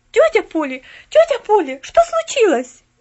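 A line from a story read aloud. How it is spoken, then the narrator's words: Girl shouting in alarm. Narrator (Russian): закричала девочка, ибо тетя Полли поднялась на ноги и чуть ли не бегом побежала к окну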